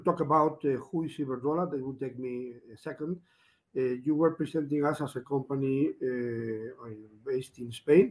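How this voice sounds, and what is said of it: Rough voice with a cough. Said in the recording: “Sorry for my voice, uh, but I'm in a little bit of a cough with the cold”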